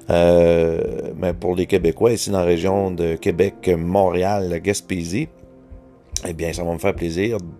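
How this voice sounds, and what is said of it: Québécois French accent. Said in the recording (French): “pardonnez-moi pour les gens qui demeurent en Europe, qui ont peut-être de la difficulté à comprendre mon accent”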